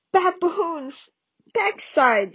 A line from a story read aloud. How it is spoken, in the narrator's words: she choked, holding her ribs